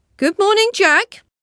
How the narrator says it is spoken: a queer little old man on the road who called out

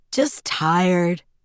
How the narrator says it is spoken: he managed to get out before he was overcome by a massive yawn

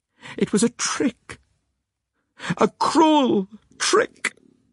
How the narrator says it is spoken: cried out Ellie

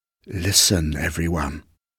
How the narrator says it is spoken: whispered a voice

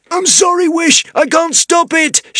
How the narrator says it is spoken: shouted Zar

